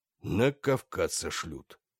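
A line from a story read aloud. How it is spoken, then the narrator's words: Gloomy. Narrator (Russian): мрачно предрек собственную судьбу Терлецкий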